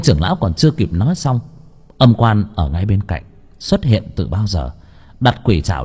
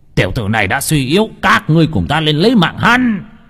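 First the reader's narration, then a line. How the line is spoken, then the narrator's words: Elder's sudden shout. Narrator (Vietnamese): Bỗng nhiên tên trưởng lão hét lên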